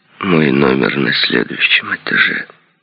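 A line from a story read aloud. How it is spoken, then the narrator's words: Weak voice. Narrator (Russian): ослабевшим голосом сказал Ли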